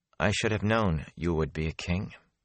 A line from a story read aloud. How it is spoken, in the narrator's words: she said quietly